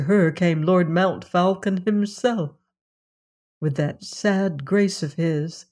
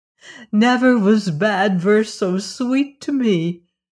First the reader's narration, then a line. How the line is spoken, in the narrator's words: cried the princess